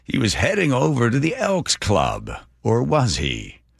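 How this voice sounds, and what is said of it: Imitates another person's voice. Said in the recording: “That's a pretty good impression, by the way. Eat your heart out, Bill Hader.”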